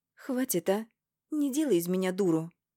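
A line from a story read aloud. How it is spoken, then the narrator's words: Shout. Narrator (Russian): мой выкрик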